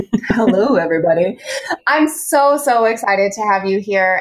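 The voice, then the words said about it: Sexy radio announcer voice. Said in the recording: “sexy radio voice”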